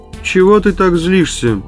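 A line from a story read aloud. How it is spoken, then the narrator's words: Flat, toneless voice. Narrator (Russian): бесцветным голосом сказал Инскип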